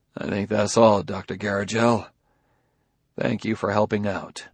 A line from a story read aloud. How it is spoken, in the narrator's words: Bailey said in a low voice